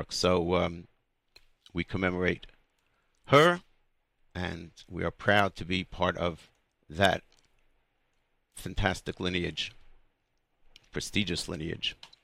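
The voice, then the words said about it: Hoarse voice. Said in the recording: “my voice is not its usual self, rather hoarse ... from all the singing and whooping and screaming”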